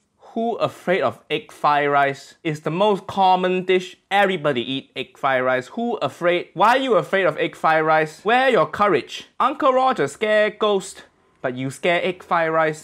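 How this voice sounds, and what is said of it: Put-on Malaysian English accent, Uncle Roger. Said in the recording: “here's an Asian guy from the culture making an accent from people he knows. The English accent of, I think Malaysia.”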